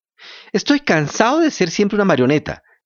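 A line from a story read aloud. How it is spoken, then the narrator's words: Shouting. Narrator (Spanish): gritó Pinocho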